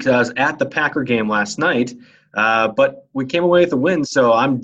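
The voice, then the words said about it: Rusty, raspy hoarse voice. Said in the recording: “my voice is a little rusty ... raspy voice”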